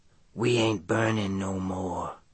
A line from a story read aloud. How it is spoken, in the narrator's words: she says softly